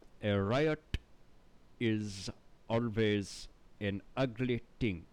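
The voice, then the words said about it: Thick stereotypical put-on accent. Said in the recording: “he starts talking with this thick like ... just obviously is such a stereotypical accent ... the way that he enunciates things”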